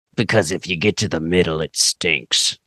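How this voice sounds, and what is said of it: Deliberately horrible silly voice. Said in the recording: “I don't know why I did that horrible voice.”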